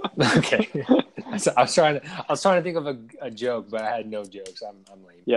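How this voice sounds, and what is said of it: Usual voice. Nothing is said of it.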